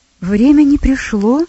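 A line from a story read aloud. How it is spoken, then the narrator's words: Young man exclaiming. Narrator (Russian): воскликнул юноша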